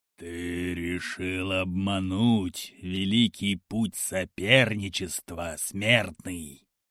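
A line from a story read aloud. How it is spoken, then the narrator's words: Growl. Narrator (Russian): прорычал покровитель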